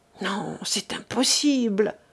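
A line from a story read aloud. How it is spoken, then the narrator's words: Murmured to himself. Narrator (French): murmura-t-il en se parlant à lui-même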